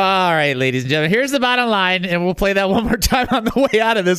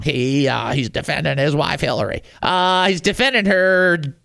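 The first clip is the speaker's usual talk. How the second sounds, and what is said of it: Poor imitation of another person's voice. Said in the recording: “I don't do impressions very good, do I? That's not a very good impression.”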